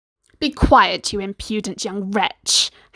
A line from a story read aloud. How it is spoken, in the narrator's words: Hassan snarled